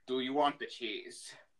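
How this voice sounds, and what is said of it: Attempted Russian accent. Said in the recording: “I'm going to try to do a Russian accent.”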